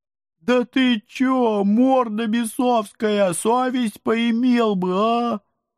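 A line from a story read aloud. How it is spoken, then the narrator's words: Mournful ghouls howling. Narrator (Russian): Тоскливо взвыли упыри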